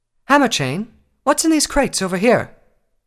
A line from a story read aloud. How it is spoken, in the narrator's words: She called out